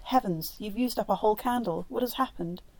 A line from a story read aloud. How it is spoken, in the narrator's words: horror-stricken, Marguerite cried